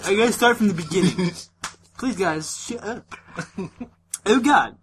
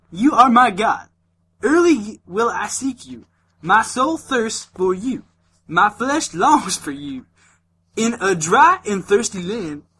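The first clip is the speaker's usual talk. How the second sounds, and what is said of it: Put-on country accent. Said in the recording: “you sound like a country ... Accent”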